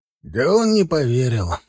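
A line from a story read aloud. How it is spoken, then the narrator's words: Sighing. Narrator (Russian): вздохнул Завгар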